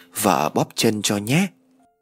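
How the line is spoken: Gentle caring wife. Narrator (Vietnamese): người vợ tâm lý nhẹ nhàng nói

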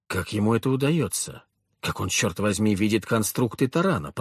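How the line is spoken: Muttered. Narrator (Russian): пробормотал я

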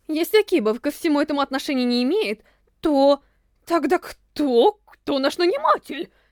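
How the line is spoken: Confused question. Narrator (Russian): Растерянно спросил Амина

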